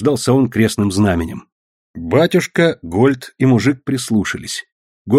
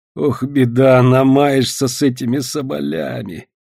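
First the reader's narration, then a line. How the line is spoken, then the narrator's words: Sudden heavy sigh. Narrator (Russian): Вдруг тяжко вздохнул он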